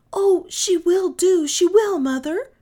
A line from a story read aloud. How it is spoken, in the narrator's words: cried Kay and Jenshin in one breath